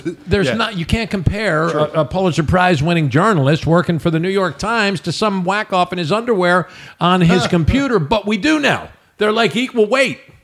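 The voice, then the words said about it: Loud, yelling, impassioned speech. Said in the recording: “Yelling? I'm sorry if I'm yelling. I get passionate.”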